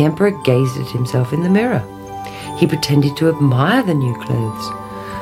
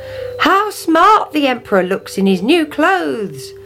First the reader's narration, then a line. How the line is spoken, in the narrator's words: cried